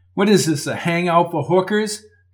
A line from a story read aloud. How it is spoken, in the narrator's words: Coco laughed